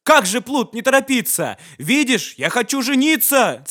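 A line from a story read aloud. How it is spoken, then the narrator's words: Angry king shouting. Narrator (Russian): Царь со гневом закричал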